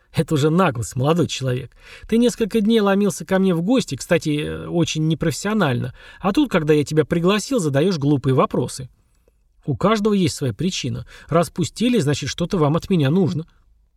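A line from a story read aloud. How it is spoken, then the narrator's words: Serious after laughing. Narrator (Russian): Отсмеявшись, он стал совершенно серьезным и сказал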